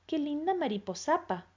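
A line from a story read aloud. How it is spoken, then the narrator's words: Murmur in Japanese. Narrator (Spanish): murmuró al fin Tsukimuki en correcto japonés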